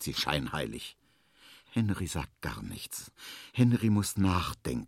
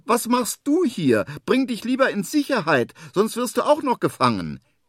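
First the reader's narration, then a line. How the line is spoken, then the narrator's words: Calling upward. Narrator (German): ruft er nach oben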